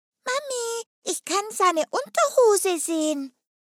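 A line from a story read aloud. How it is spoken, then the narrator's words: Child calling out. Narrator (German): rief ein kleines Kind hinten aus der Menge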